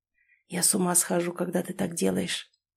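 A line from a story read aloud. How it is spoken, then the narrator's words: Whispered. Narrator (Russian): прошептал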